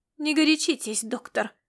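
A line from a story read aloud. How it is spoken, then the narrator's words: Girl through gritted teeth. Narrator (Russian): проговорила девушка сквозь зубы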